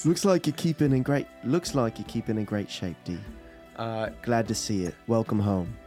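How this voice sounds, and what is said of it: Attempted British accent. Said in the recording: “Just British accent. ... Don't worry about the voice.”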